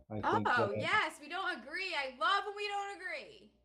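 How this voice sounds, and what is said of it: Yelling, loud voice. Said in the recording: “Why are you yelling?”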